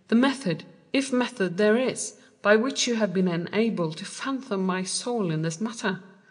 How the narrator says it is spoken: I exclaimed

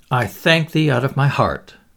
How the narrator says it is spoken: exclaimed Hendon, with a fervency which showed that he was touched

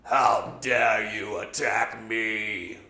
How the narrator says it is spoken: The giant Ruta roars out

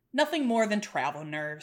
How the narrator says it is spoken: he said out loud

